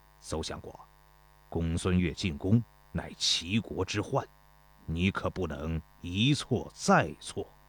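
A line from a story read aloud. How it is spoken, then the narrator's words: Low, serious. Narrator (Chinese): 田忌低声严肃地说道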